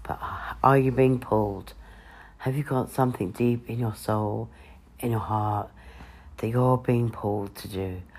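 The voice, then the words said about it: Congested voice with a cold. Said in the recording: “I've got a bit of a cold,”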